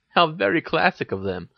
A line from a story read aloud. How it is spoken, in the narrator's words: she giggled